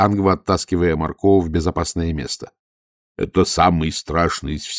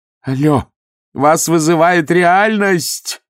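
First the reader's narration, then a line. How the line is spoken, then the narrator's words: Shouted. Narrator (Russian): крикнула Ангва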